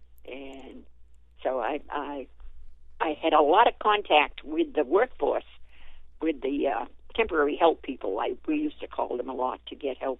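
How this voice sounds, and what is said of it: Northern US Yankee accent. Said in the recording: “maybe it's my Yankee accent”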